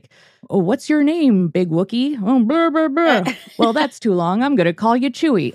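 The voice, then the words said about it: Imitates Chewbacca's voice. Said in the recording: “That was a really good Chewbacca imitation”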